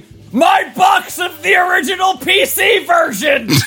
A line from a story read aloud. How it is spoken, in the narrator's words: my wife, in all caps, yelling